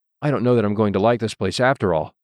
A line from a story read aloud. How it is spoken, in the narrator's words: said Susan